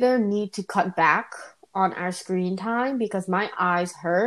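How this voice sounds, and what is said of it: Usual voice. Nothing is said of it.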